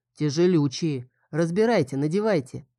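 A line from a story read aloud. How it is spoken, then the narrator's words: Grumbling. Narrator (Russian): Глена проворчала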